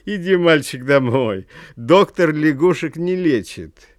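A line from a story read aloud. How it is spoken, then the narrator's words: Laughing crowd speaking. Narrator (Russian): Все вокруг смеялись и говорили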